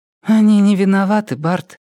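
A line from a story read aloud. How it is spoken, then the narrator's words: Sighing. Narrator (Russian): вздохнула Мэри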